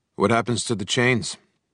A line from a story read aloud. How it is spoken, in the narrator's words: I asked in a casual tone